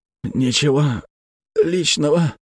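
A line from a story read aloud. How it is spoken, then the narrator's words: Moaning, spy. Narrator (Russian): простонал шпион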